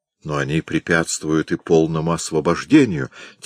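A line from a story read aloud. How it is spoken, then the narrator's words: Quiet. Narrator (Russian): тихо сказал К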